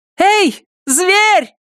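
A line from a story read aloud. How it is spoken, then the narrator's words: Yelling. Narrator (Russian): заорала она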